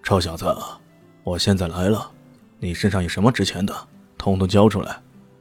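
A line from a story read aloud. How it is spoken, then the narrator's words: Cold, threatening. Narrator (Chinese): 阿杜哥冷冷的说道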